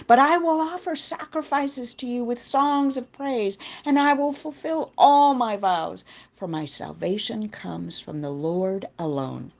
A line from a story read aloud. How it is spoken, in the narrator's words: Jonah cried